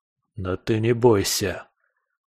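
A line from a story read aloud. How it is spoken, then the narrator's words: Hissed through teeth in pain. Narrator (Russian): прошипел я сквозь зубы, волевым усилием гася очередную волну боли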